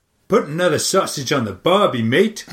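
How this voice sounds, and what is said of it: Bad put-on Australian accent. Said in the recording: “My Australian accent is so bad ... I really can't do an Australian accent. ... this is a genuine attempt at it ... Are you Belgian?”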